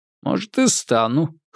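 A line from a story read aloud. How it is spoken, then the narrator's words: Grunting reply. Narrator (Russian): хмыкнул в ответ Анзоров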